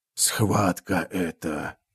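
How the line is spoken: Hoarse rasp. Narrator (Russian): прохрипел бог

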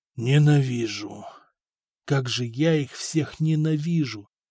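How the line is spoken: Whispering. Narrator (Russian): шептал Арат

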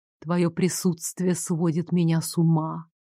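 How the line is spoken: Whisper. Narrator (Russian): прошептал

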